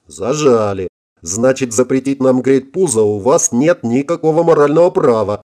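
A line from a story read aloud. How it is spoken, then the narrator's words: Chuckling. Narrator (Russian): хохотнула Элен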